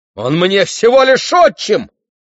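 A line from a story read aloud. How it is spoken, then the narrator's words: Yelling. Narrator (Russian): завопил в ответ Фаэтон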